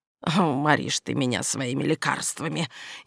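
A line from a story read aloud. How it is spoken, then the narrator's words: Grumbling. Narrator (Russian): проворчала она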